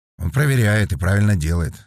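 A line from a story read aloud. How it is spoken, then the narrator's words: Sighing. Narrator (Russian): вздохнул Бочка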